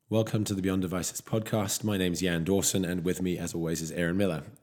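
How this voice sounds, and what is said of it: Hoarse, deeper than usual voice. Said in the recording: “I am recovering from a very hoarse throat this week, and my voice is coming back somewhat, but I'm going to sound a little deeper than usual”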